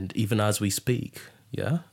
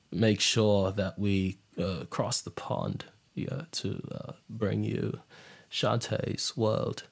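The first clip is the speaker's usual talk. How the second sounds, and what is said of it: Put-on British accent, uncertain quality. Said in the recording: “I'm not sure how good my British accent is”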